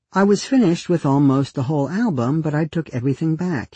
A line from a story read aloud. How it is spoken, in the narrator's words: he said